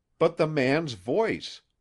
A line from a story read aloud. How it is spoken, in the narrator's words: exclaimed Jax